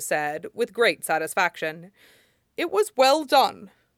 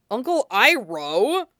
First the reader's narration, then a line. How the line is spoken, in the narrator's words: Zuko sputtered